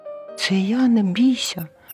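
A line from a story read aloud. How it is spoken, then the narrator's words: Squeaky mouse voice. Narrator (Ukrainian): писк рудої миші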